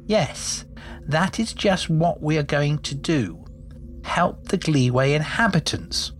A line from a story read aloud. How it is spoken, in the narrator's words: said Jew